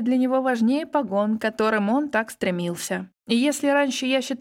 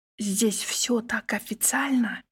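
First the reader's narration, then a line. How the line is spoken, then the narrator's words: Whisper in ear. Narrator (Russian): шепнула я Егора на ухо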